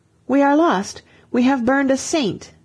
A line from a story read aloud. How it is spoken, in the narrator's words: an Englishman cried out